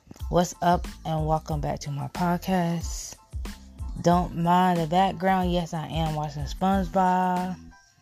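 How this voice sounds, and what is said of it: Groggy, just-woke-up voice. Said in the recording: “Excuse my voice. ... I just not too long woke up from my nap”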